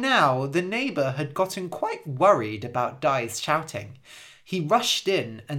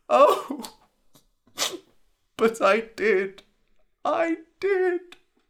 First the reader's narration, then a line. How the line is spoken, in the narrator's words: whimpered Dai